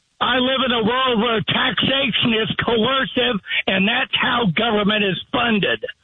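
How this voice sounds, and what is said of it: Yelling. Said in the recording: “What are you yelling at me for?”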